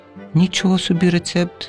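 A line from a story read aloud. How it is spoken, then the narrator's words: Laughing. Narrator (Ukrainian): засміялася Олянка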